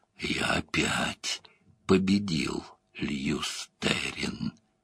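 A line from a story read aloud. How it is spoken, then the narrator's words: Whispering voice in head. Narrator (Russian): в голове зашептал голос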